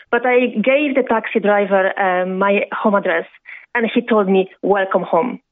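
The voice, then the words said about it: Strong Eastern European accent. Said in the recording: “I still have very strong Eastern European accent”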